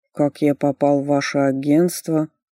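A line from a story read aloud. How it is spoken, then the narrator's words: Slow drawl. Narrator (Russian): Медленно протянул мужчина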